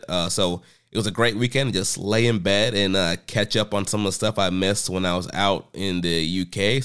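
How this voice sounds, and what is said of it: Slightly sick-sounding voice. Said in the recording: “I was sick. You can probably hear it in my voice still a little bit.”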